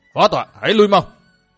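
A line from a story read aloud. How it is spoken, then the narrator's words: Sudden changed-tone loud shout. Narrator (Vietnamese): Bỗng nhiên La Sát đổi giọng quát to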